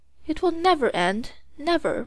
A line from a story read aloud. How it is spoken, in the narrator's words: moaned the officers